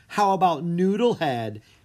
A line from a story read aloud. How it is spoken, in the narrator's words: Anna asked with a giggle